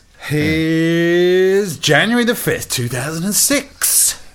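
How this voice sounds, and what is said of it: 1970s radio DJ voice. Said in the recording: “Radio 1 sort of DJ impersonation... That was very Radio 1 Roadshow 1970s, I have to say. That was very impressive.”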